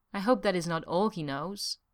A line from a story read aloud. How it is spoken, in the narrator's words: she said softly